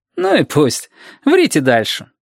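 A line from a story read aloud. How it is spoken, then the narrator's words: Cheerful. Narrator (Russian): также весело говорил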